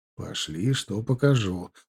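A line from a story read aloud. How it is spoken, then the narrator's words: Whisper. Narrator (Russian): прошептал я ей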